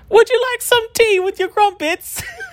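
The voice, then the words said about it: Bad squeaky put-on British accent. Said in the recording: “I really can't do a British accent ... English impersonation ... his voice is, like, real squeaky. That's what you sound like.”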